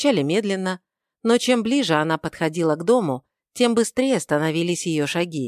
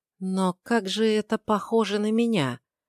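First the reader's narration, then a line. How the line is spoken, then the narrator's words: Quiet female voice. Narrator (Russian): тихо произнесла она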